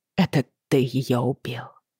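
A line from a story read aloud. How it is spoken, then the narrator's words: Quiet. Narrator (Russian): тихо сказала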